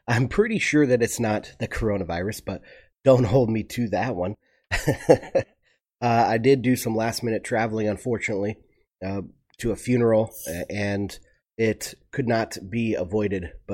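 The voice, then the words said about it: Stuffy, congested nasal voice. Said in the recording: “my voice is a little bit stuffy ... I've had a very stuffed up nose ... I did get a cold there”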